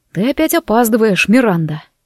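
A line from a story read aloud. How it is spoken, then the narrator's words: Whispered. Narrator (Russian): прошептал он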